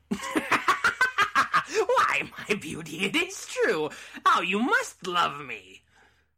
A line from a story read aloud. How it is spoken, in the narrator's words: Cackling all the while, the loathsome beggar